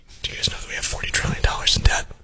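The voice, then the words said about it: Whispering. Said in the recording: “It's hard to tell when you're whispering.”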